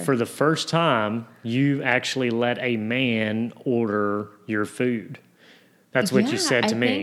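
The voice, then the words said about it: Strong Southern American accent. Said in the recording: “your Southern accent came out ... here's this man with a strong Southern accent.”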